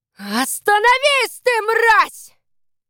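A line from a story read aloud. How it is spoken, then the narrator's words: Booming, bell-like voice. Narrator (Russian): Ее голос прогремел под низкой крышей, как большой колокол на ратуше в Христиании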